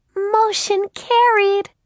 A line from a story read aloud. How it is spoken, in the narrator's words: screeched Beth Ellen in a fit of helpless giggles